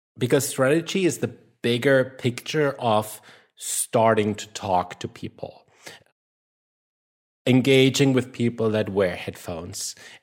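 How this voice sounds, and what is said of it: German accent. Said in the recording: “my German accent prohibits me from pronouncing that word correctly”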